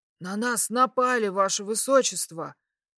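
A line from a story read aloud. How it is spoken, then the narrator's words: Hoarse. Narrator (Russian): прохрипел он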